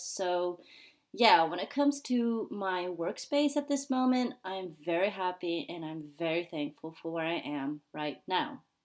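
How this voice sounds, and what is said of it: American accent. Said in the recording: “I am originally from the US. Probably you hear this American accent.”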